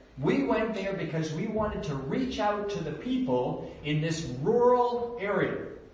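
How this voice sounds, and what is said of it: Canadian accent. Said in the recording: “I got a Canadian accent, and it might be difficult to understand”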